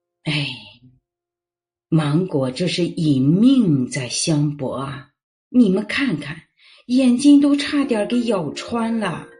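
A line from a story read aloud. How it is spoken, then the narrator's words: Grandfather, heavy sigh. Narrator (Chinese): 外公狠狠的叹了一口气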